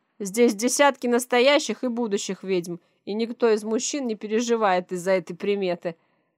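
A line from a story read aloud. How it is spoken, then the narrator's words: Laughing loudly. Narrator (Russian): с хохотом сообщает Василий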